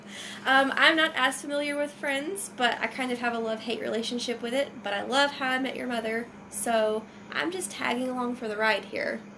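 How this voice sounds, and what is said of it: Southern US (Georgia) accent. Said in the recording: “I'm a transplant from Georgia, so yes, you do detect an accent, and no, it's not cute.”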